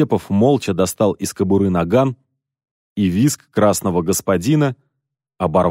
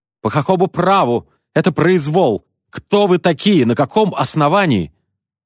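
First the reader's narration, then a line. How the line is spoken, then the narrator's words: Shrill flustered shout. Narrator (Russian): раскрасневшийся господин, который визгливым голосом закричал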